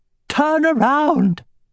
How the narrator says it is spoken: shrieked the high priest

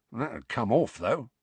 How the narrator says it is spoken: muttered Mundungus

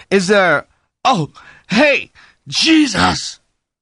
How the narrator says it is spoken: suddenly Lonnie screamed

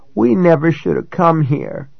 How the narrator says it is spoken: Kai moaned

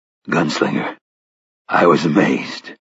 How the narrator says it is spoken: said in a husky, trembling voice

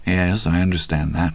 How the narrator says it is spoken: Andy said softly

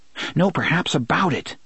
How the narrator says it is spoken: his mind insisted frantically

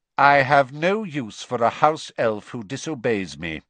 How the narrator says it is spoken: he said coldly

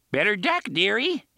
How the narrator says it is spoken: he cried, and voiced a series of shrill, hysterical giggles

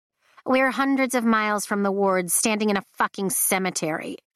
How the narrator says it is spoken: she snaps

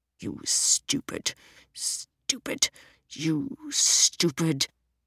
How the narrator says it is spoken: he muttered, as if he were searching for the very worst insult he could think of

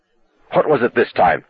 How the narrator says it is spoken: Arnie asked fiercely

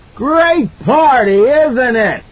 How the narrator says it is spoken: He screamed into her face

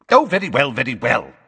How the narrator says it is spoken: snapped Fudge

